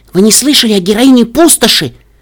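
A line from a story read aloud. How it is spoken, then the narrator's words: Excited young female. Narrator (Russian): взволнованно спросила юная кобылка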